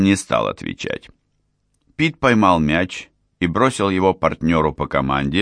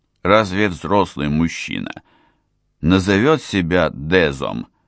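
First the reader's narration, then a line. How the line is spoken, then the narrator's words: Grumbled. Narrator (Russian): буркнул Адам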